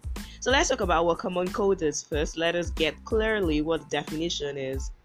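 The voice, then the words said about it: Husky voice, under the weather. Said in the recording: “I am somehow under the weather myself ... in my somehow husky voice”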